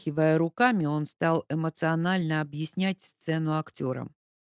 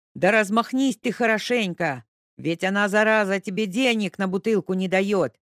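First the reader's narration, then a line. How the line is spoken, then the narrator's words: Director yelling. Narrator (Russian): орал режиссер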